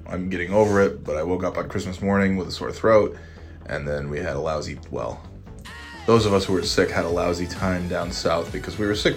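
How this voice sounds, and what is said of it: Sick, congested voice. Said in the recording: “As you may be able to tell, I have a cold.”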